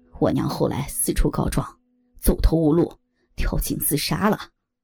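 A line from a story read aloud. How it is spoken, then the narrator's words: Cold. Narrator (Chinese): 三强冷冷的说道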